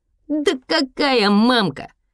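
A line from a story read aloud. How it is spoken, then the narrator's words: Laughing. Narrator (Russian): Еся засмеялся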